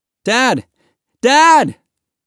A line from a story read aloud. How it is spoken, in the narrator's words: Mahmoud cried